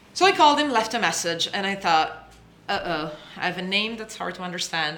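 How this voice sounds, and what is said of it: Speaks with a noticeable accent. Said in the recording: “I have an accent.”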